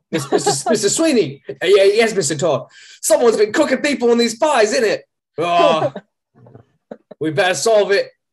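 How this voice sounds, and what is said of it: Clumsy put-on British accent. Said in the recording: “This has been my accent work. I have been trained in accent work. Not in this accent. I'm sure that's very clear.”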